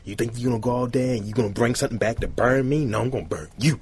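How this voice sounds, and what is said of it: Unconvincing stereotypical put-on accent. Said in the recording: “you got the wrong accent, first of all... got to do a better one... I've used my one stereotypical accent.”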